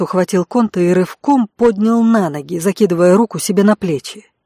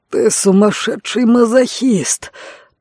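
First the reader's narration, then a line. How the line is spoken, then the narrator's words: Hoarse wheeze. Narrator (Russian): прохрипел Конт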